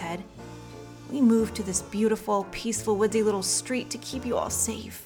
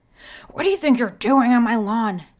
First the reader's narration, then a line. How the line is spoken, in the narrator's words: she yelled in a husky voice